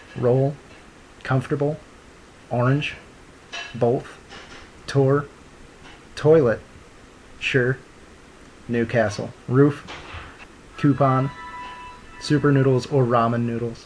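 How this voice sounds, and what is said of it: St. Louis Midwestern accent. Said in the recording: “a traditional St. Louis accent actually sounds more like this ... Midwestern dialect”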